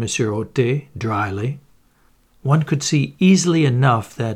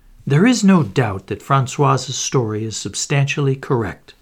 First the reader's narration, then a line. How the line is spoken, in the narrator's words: he remarked to me in a confidential tone